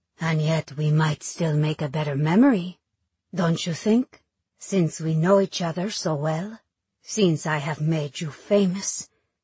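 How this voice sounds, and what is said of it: Exaggerated French accent. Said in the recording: “accent grows even more excruciatingly French”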